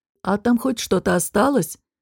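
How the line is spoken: Grumbled. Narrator (Russian): проворчал Дестон

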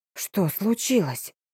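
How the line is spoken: Near whisper. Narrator (Russian): Голос служанки был похож на шепот

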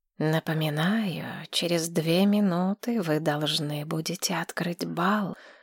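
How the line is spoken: Insinuating whisper. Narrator (Russian): вкрадчивый шепот Дерра наблюдателя

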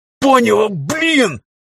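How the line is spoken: Roar. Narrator (Russian): взревел

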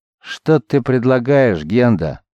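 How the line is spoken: Weary murmur. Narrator (Russian): устало проронил Лагар

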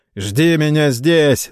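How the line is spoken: Mocking shout. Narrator (Russian): насмешливо крикнул сэр Роже

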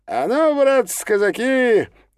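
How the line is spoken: Cheerful shout. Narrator (Russian): весело крикнул Чига

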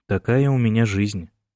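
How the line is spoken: Calm. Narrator (Russian): спокойно сказал он

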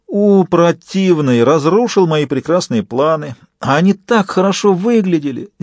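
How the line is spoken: Feigned despairing exclamation. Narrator (Russian): сделанным отчаянием воскликнул Фист

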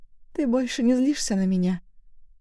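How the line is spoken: Timid plea. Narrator (Russian): Просила робко

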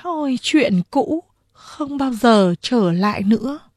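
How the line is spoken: Sighing lament. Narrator (Vietnamese): Lâm Lam thở dài ra một hơi than thở

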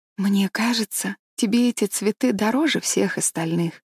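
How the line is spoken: Quiet speech. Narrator (Russian): тихо проговорила Энн

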